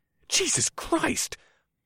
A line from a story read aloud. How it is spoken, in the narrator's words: I gasped as I saw the yellowish liquid burn a hole in the ground